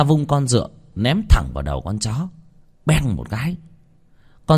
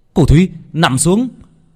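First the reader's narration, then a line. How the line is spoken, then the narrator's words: Frightened shout. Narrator (Vietnamese): Việt sợ hãi, hét lên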